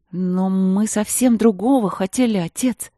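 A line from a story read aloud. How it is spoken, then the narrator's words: Embarrassed exclamation. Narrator (Russian): воскликнула краснея смущенная Ангелина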